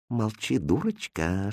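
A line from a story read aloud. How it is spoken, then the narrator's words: Whispered reply. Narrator (Russian): шепнул он ей в ответ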